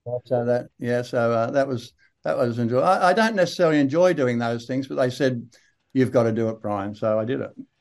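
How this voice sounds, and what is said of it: Australian accent. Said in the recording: “Aussie accent.”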